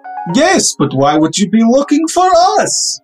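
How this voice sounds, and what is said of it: Exaggerated wild put-on accent. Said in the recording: “My accents are buck-fucking-wild today!”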